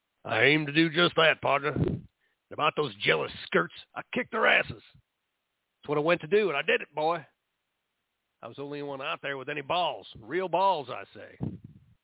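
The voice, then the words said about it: Exaggerated Texas cowboy accent. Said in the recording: “Try putting a little cowboy or a cowgirl in your accent ... a little more Texas. Maybe a bit too much cowboy, not enough cowgirl.”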